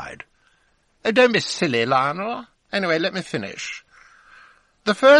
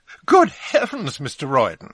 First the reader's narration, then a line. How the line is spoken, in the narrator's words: exclaimed